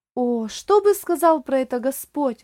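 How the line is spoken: Exclamation. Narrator (Russian): воскликнул Оливер

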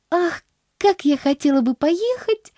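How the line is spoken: Exclamation. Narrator (Russian): воскликнула Поллианна

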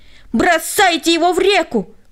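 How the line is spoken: Group yelling. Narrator (Russian): они все завопили

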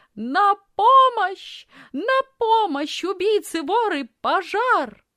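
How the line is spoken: Loud scream. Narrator (Russian): испустила громкий крик, громко закричала

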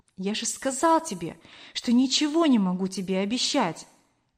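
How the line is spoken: Soft, trembling. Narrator (Russian): мягко ответил Кор, дрожа всем телом

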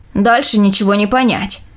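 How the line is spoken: Grumbling. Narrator (Russian): проворчал

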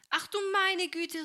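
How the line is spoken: Startled cry. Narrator (German): rief Helene, als sich das Wasser über sie ergoss

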